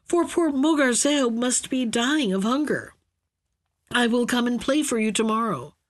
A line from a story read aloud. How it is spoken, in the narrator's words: cried at last